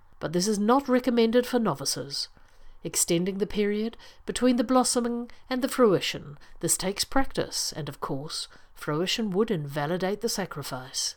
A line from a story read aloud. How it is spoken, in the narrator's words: said gravely